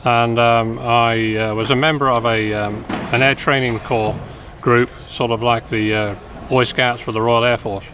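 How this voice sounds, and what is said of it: English accent. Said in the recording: “Back in England, as you can tell by the accent, I'm not from around these parts.”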